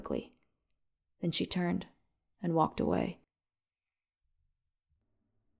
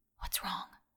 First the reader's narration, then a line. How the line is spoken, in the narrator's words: The voice was barely a whisper